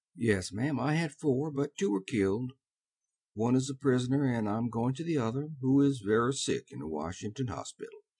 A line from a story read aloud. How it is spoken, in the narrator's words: he answered quietly